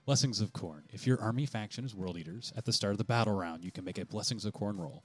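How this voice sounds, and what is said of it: Announcer-style radio voice. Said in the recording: “we're going to present this to you with our radio voice”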